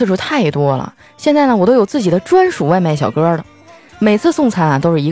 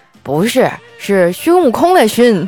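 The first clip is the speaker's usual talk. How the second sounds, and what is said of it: Imitated heavy regional accent. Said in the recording (Chinese): “哎呀，这口音也是没谁了。”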